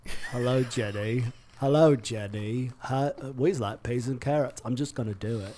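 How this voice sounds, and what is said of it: British accent sounding like Forrest Gump. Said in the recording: “So my British accent sounded like Forrest Gump.”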